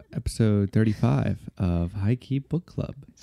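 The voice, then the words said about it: Polished public-radio announcer voice. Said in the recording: “It's your NPR voice.”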